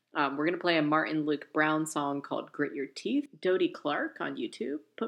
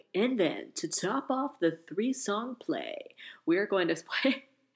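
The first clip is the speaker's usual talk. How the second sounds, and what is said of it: Radio announcer voice. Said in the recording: “that was my radio announcer voice right there”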